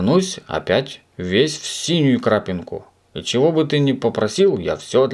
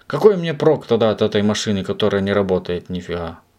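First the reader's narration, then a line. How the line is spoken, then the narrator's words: Sad. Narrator (Russian): Печально проговорил господин Пепперминт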